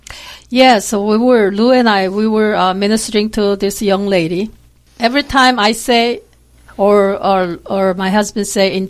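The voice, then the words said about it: Korean-accented English. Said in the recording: “you don't exactly have a Texas accent ... I am from South Korea. I've been here for quite a while, really, but I still have an accent.”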